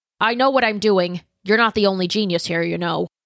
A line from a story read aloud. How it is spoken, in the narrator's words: he snapped